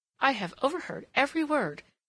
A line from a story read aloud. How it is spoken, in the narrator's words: she exclaimed